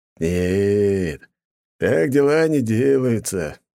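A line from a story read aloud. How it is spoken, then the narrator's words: Criminal's mocking tone. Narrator (Russian): насмешливо сказал уголовник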